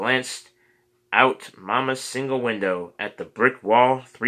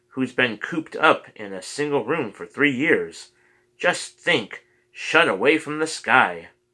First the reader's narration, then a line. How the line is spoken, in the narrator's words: she cried